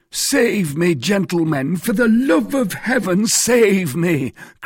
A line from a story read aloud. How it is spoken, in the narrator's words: cried he